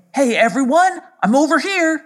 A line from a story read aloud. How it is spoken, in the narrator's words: shouted Drom … shouted out to the triplets